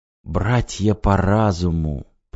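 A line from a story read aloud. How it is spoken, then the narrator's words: Whispered. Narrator (Russian): прошептал Максим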